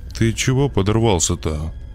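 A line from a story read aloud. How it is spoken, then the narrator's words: Displeased mutter. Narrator (Russian): недовольно бормотала она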